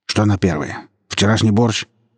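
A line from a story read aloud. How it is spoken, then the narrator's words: Rude gruff mutter. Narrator (Russian): грубо буркнул муж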